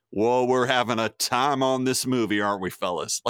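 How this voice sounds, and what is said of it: Hammy cornball accent, imitating another person. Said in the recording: “Me, Brad Pitt, playing a Nazi hunter... listen to my cornball accent”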